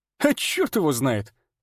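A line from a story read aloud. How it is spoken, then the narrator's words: Blurted out. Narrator (Russian): выпалил я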